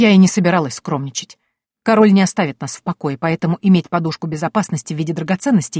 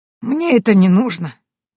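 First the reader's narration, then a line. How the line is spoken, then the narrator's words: Sad smiling, hunter. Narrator (Russian): грустно улыбнулся охотник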